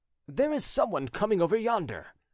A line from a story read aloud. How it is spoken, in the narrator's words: he cried